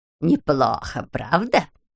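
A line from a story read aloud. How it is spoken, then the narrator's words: Creaky voice. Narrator (Russian): проскрипела Морин Майлзу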